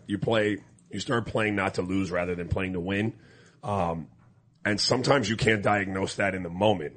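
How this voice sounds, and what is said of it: Strained, hoarse-sounding voice. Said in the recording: “That's why my voice sounds like this. Different level, but still, I was yelling.”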